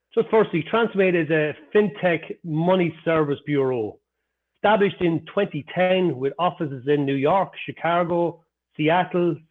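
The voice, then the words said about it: Irish accent. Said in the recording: “as you can hear from my accent ... I never lost my Irish accent”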